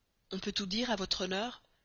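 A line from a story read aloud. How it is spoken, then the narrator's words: Low voice. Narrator (French): dit-il à voix basse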